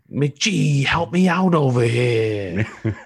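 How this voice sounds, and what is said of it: Put-on New York accent. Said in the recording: “I did a New York accent. ... It was close.”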